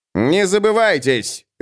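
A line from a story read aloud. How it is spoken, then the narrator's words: Barking. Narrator (Russian): рявкнул Эф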